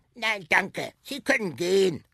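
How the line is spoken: Croaking reply. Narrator (German): krächzte zurück

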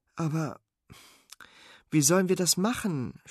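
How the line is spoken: Groaning. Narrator (German): stöhnt Sven

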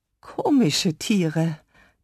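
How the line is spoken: Croaking dinosaur. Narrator (German): krächzte der Compsognathus

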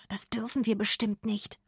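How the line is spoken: Whispered reply. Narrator (German): flüstert Arne zurück

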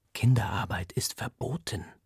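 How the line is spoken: Whisper. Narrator (German): flüstert mir Paris zu

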